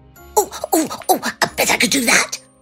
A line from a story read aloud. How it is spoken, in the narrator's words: Hobnob cried